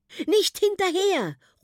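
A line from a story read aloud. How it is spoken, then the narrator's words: Calling out. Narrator (German): ruft auch Bjarnat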